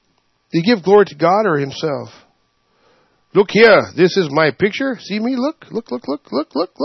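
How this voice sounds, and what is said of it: Usual voice. Nothing is said of it.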